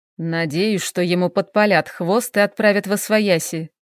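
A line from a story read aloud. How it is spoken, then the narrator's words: Grumbling. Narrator (Russian): проворчал Эйнар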